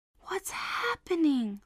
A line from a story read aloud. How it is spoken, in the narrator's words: Mum whispered, with a worried look